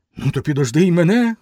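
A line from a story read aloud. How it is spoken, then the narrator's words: Shout. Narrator (Ukrainian): крикнув Грицько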